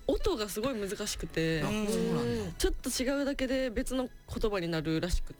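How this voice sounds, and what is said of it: Strong Kansai Japanese accent. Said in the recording (Japanese): “めっちゃ関西弁”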